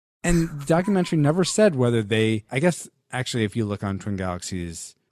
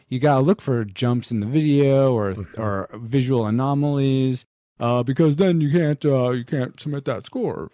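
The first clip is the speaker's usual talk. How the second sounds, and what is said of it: Nasally imitated voice. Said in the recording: “I don't know why I'm giving him that accent, but it's more a nasally. Yeah, I can't do that.”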